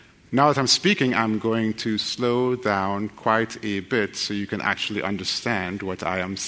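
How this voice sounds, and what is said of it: Usual voice. Nothing is said of it.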